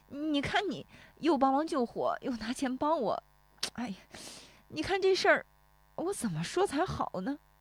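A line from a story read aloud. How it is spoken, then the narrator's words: Choked, near tears. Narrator (Chinese): 石有福说着又要哽咽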